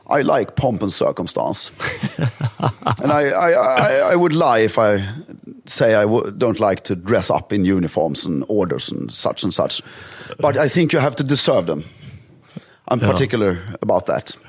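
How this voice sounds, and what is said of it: Poorly imitated English aristocratic dialect. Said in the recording (Swedish): “härmar det hans dialekt så dåligt så det går inte”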